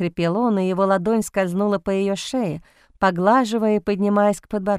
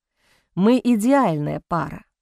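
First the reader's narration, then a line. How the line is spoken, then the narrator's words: Hoarse rasp. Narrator (Russian): прохрипел Бастиан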